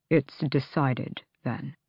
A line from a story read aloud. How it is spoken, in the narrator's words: Kaol said quietly